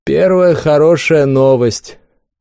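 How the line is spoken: Chuckling knight. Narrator (Russian): хохотнул рыцарь

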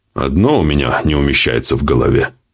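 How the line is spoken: Grumbling. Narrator (Russian): проворчал полковник

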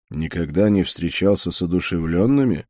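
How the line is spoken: Quiet question. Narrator (Russian): негромко спросил я

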